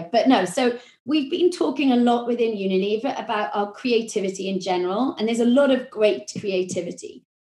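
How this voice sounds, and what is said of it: Welsh accent. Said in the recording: “That might be my Welsh accent.”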